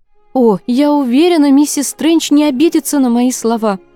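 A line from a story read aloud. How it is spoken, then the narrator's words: Exclaimed. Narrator (Russian): воскликнула Кассандра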